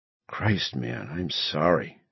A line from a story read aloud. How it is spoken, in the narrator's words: he murmured